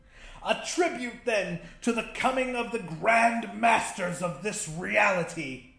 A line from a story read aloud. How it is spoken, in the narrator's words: Narelhotep exclaimed